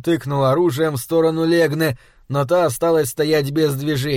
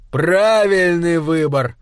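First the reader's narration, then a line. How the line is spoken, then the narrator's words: Smirking grunt. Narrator (Russian): хмыкнул он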